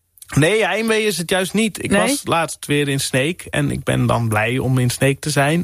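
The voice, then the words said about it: Frisian-accented Dutch. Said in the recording (Dutch): “hoor ik meteen meer Fries in je stem ... Dan wordt mijn accent direct getriggerd of zo. En dan, dan wordt dat accent meer aanwezig.”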